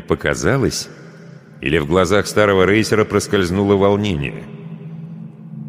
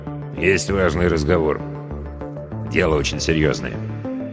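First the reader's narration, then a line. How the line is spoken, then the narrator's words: Quiet. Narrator (Russian): Он тихо добавил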